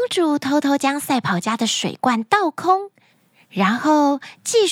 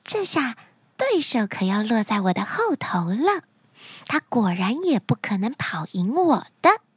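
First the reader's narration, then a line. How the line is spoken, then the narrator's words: Happy whisper to herself. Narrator (Chinese): 她高兴地小声地对自己说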